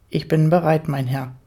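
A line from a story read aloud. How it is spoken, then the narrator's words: Firm, steady voice. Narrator (German): sagte schließlich mit fester Stimme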